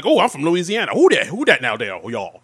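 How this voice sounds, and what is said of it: Exaggerated put-on Southern accent. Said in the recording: “him doing his exaggerated southern accent”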